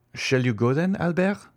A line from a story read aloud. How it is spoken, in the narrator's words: asked Franz